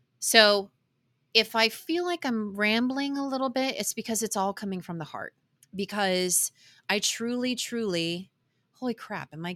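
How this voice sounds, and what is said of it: Choked-up, emotional voice. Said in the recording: “getting choked up?”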